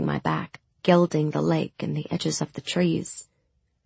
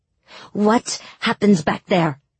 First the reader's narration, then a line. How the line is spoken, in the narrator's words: she spat